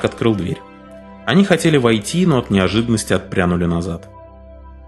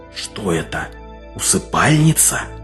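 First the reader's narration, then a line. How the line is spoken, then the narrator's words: Reverent whisper. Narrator (Russian): прошептал Этсель с благоговением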